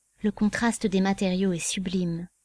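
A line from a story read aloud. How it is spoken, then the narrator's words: Murmured. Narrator (French): murmura-t-elle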